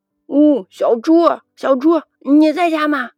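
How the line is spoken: Calling out. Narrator (Chinese): 我在门口喊

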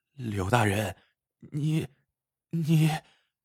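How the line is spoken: Trembling, alarmed voice. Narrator (Chinese): 福庆心里一咯噔，立刻听出了柳知县的话外之音，颤声说

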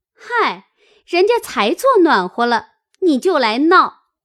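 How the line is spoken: Laughing, teasing. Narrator (Chinese): 晴雯嗨了一声，笑道

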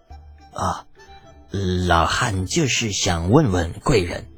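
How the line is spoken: Steeled, reluctant question. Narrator (Chinese): 还是咬咬牙问道

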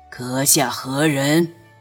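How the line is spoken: Deep, wary. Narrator (Chinese): 他心里一凛，沉声道

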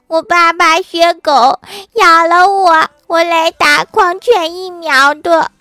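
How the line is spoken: Crying loudly. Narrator (Chinese): 郭晓霞哭得更大声了，说

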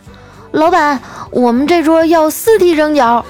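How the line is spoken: Shouting. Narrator (Chinese): 这丸子冲着厨房大喊

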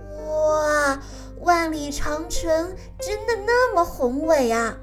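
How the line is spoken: Admiring exclamation. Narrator (Chinese): 乐迪不禁赞叹道

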